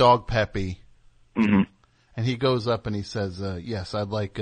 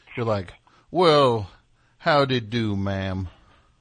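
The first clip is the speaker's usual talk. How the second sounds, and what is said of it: Put-on Southern US accent. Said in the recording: “that's a southern accent ... I'm going to do your accent now”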